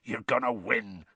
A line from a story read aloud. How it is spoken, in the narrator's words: Hagrid growled